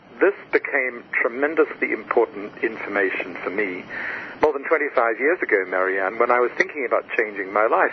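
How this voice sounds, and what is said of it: Australian accent. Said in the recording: “as you can hear from my voice, I come from somewhere else... I was born in Australia”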